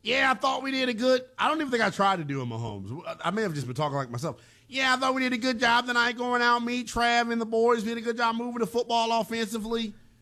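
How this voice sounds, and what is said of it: Poor imitation of another person's voice. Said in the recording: “my Mahomes impression sucks. It's actually like pretty bad... Mahomes impression sounds like Obama for some reason... It's a terrible Mahomes.”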